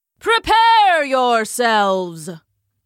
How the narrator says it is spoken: boomed a voice from hidden speakers

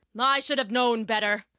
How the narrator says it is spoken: he grumbled

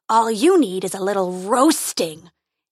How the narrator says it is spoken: he roared

